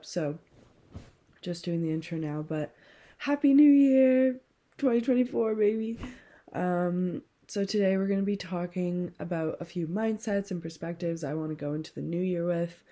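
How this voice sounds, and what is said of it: Congested, stuffed-up voice. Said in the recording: “I am a bit under the weather right now, so just pardon how my voice sounds... so stuffed up”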